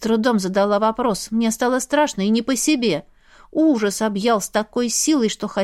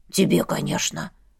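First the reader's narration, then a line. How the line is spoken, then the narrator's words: Gruff grumble. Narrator (Russian): буркнул череп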